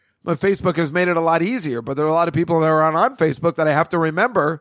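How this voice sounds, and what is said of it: Usual voice. Nothing is said of it.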